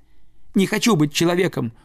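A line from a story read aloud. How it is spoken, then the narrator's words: Shouting. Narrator (Russian): уже кричал Нильс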